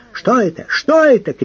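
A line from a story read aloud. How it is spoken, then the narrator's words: Shouting. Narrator (Russian): кричал он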